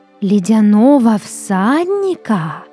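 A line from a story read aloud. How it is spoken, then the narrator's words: Drawn out, in chorus. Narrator (Russian): протянули они хором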